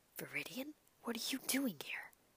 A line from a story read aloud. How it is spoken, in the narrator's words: Tsukauchi whispered back